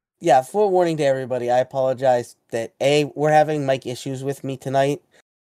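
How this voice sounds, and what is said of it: Sick, cold-affected voice. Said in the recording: “I'm sick. ... I apologize for my voice.”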